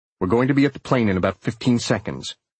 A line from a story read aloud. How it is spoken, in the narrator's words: Marcus said calmly